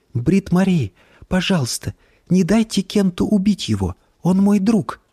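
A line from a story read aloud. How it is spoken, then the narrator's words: Pleading whisper. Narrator (Russian): прошептала она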